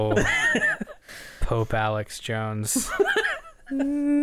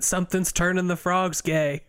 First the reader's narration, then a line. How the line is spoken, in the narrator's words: He shouted